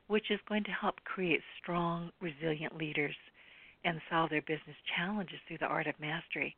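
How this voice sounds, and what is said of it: Breathless after a long intro. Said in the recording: “Whew, I'm out of breath.”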